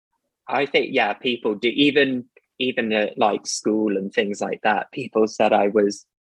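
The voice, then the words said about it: Posh British accent. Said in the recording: “I love your accent ... Are you posh or are you not posh? ... I guess I sort of am ... you can tell like a posh person by their accent”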